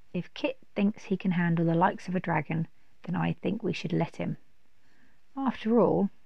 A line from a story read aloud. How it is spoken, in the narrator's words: he calmly said